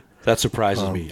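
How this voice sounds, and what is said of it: Sarcastic delivery. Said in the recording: “I'm kidding. I'm being sarcastic.”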